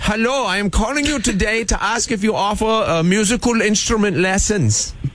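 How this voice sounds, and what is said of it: Put-on Bavarian German accent. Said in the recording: “our Bavarian friend ... accent?”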